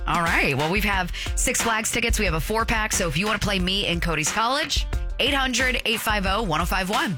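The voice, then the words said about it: Lower, raspy tired voice. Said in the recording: “stayed up way past my bedtime ... and I both might sound, you know, be patient with us ... our voices get just a little bit lower ... A little bit raspier”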